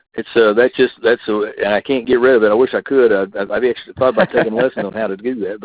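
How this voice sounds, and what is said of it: Texas Panhandle accent. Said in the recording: “my accent is from the Texas Panhandle... not unlike some of the people from the hills of West Virginia”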